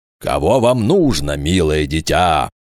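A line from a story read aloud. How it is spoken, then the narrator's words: Thunderous sing-song. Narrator (Russian): громоподобным голосом пропел гражданин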